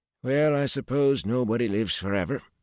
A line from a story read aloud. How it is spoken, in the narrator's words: Noel sighed